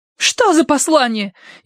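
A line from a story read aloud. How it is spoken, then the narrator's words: Hysterical cry. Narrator (Russian): истерически вскрикнула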